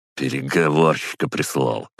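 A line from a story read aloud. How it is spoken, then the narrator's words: Dismissive snort. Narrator (Russian): хмыкнул чердак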